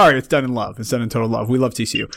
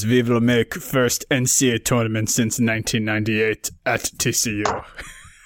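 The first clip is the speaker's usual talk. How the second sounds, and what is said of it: Imitated Russian accent. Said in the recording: “some Russian guy mad at me for doing that imitation.”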